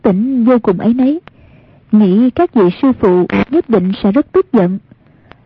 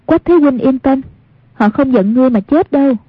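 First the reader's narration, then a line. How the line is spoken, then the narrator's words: Smiling. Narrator (Vietnamese): mỉm cười nói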